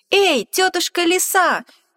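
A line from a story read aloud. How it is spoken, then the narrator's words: Little mouse shouting. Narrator (Russian): мышонок закричал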